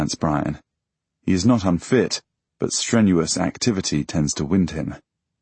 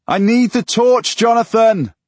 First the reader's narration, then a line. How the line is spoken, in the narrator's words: I shout back over my shoulder